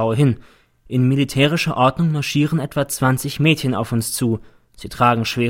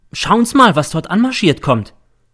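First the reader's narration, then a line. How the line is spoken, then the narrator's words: Sudden call. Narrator (German): ruft plötzlich der M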